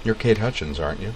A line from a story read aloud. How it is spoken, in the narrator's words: Joe asked in his soft, mellow voice